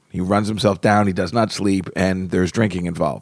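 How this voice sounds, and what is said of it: Slightly hoarse, worn-out voice. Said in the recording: “you can tell my voice is a little shot”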